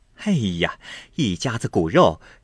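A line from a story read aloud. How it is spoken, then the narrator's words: Fake laugh. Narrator (Chinese): 凤姐儿假意笑道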